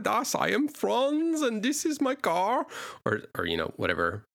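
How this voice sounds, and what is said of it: Bad put-on German accent. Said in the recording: “terrible German impression”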